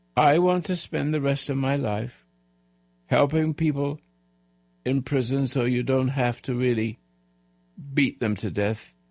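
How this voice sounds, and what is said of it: Weak, feeble elderly voice. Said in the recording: “a little bit feeble ... my voice is not strong as it used to be”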